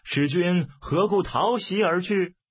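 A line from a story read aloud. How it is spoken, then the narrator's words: Shouting. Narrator (Chinese): 蔡瑁大叫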